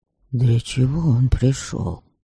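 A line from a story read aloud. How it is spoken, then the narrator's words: Whispered. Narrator (Russian): шепнул Стейн Радобожу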